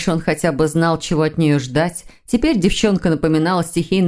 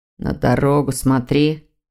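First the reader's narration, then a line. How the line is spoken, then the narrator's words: Grumble. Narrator (Russian): проворчал Дамиан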